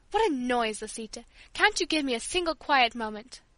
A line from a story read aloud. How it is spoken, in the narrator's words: in a sharp tone exclaimed